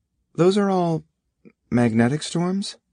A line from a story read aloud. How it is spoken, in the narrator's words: Beth said hesitantly